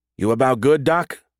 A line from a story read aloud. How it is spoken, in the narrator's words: Reach called out after yet another imploring look from Osei Crazewell